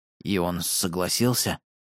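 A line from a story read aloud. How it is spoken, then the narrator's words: Quiet question. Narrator (Russian): тихо спросил я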